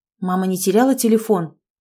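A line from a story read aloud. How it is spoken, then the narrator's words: Plain. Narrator (Russian): спросил Давыдов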